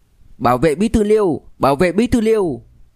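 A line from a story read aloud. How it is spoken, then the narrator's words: Loud shout. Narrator (Vietnamese): Một tiếng hét lớn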